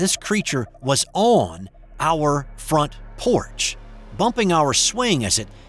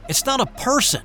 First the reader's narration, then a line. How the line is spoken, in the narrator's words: Jamie yelled back at us